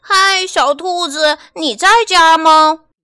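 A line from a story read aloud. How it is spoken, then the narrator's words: Calling from outside. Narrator (Chinese): 有人在门外喊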